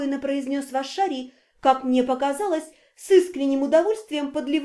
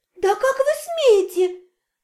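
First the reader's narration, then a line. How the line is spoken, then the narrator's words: Shrill indignant shriek. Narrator (Russian): Препротивно взвизгнула леди Кейта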